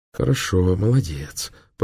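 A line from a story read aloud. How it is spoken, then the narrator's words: Muttering. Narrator (Russian): пробормотала Изольда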